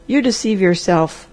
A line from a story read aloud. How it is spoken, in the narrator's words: said the doctor flatly